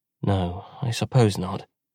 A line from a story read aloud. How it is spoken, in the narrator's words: Buri mumbled, without feeling entirely convinced